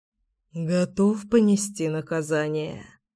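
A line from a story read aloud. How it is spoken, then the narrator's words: Muttered. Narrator (Russian): пробормотал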